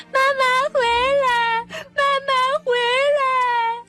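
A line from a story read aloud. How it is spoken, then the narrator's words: Crying shout. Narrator (Chinese): 那个哭着喊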